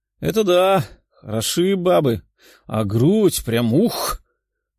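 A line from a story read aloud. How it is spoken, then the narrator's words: Drooling guffaw. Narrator (Russian): расхохотался бледный эльф, пуская слюну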